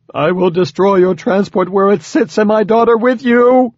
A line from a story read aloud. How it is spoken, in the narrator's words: the hierarch screamed